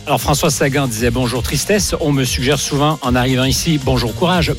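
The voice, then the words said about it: Sing-song Canadian French accent. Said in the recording (French): “son accent chantant, il est là. ... Chantant. ... journaliste canadien”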